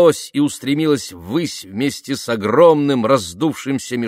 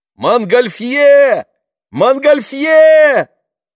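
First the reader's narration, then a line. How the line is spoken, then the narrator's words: Shout from crowd. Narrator (Russian): закричал кто-то из толпы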